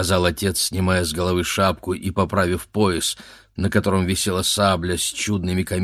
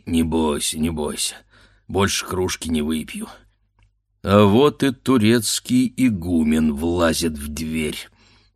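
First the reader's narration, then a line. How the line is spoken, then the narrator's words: Through gritted teeth. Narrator (Russian): проговорил он сквозь зубы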